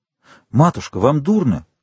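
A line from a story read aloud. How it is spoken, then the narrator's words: Alarmed exclamation. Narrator (Russian): воскликнул виконт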